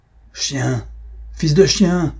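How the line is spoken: Angry exclamation. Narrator (French): s'écria Ferragus, les yeux étincelants de colère

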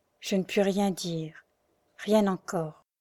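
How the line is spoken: Stifled sigh. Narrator (French): Et il ajouta avec un soupir étouffé

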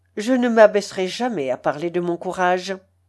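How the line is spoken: Cold. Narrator (French): dit froidement Julien

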